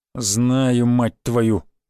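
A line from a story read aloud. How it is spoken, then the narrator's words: Through gritted teeth. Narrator (Russian): процедил младший брат Черепа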